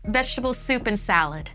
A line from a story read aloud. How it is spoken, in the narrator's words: Eva said loudly